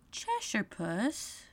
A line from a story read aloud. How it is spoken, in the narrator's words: she began rather timidly, as she did not at all know whether it would like the name